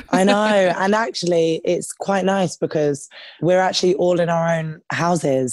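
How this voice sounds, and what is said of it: London English accent. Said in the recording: “I totally feel like I'm being transported to London ... as soon as I heard your accent, I was like, whoa, hello.”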